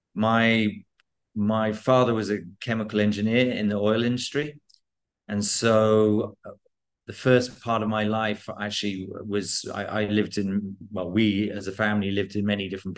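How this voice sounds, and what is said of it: British English accent. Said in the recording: “You've clearly grown up in and around the UK, I'm guessing, from your accent.”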